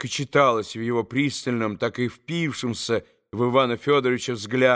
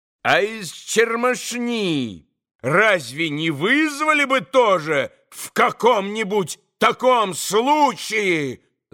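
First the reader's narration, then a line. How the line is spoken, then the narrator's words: Sudden loud yell. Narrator (Russian): завопил вдруг Иван Федорович, неизвестно для чего вдруг ужасно возвысив голос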